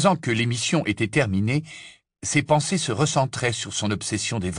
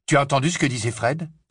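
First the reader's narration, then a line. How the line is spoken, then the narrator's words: Feverish question. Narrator (French): demanda Harry, d'un ton fébrile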